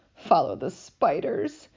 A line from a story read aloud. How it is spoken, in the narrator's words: said Ron weakly